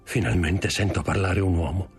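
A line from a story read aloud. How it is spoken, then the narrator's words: Murmur. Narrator (Italian): Mormorò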